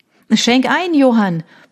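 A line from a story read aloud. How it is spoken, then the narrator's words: Roared. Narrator (German): brüllte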